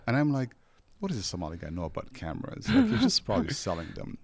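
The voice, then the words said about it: Non-native English accent. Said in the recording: “he sensed my accent”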